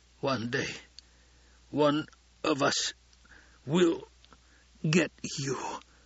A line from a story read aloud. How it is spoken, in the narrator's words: gasped